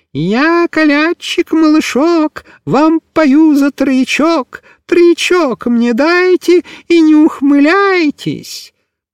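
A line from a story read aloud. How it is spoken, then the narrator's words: Thin-voiced singing. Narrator (Russian): тоненьким голоском запел Микиш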